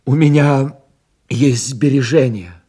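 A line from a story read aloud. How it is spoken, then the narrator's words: Sudden exclamation. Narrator (Russian): внезапно воскликнул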